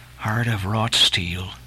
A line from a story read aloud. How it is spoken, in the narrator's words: murmured Starbuck